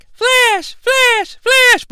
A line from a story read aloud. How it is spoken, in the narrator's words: girl squeal